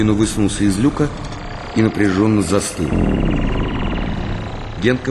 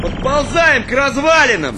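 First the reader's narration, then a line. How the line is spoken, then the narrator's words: Shouted into radio. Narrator (Russian): закричал он в рацию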